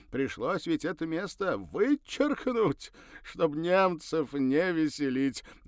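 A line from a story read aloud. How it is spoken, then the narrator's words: Ringing laughter. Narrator (Russian): заливисто рассмеялся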